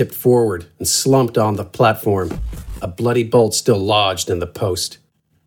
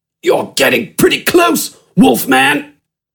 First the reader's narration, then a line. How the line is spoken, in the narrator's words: Smidgen grunted